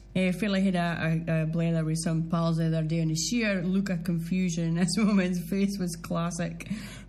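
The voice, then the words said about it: Doric accent. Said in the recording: “just have a proud old Doric accent.”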